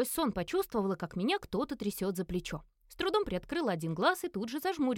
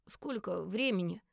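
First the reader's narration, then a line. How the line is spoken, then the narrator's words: Hoarse sleepy voice. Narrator (Russian): Голос со сна был сиплым, как будто простуженным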